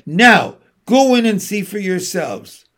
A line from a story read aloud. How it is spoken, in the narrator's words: cried